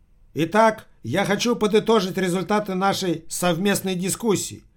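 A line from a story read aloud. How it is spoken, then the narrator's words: Shouted from toilet stall. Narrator (Russian): прокричал из кабинки руководитель трансподмосковной компании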